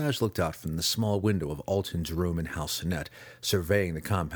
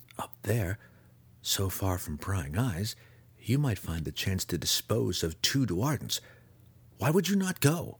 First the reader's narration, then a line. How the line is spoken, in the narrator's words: Alton continued quietly